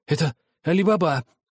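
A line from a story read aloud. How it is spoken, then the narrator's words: Delighted exclamation. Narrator (Russian): воскликнул Скрудж в восторге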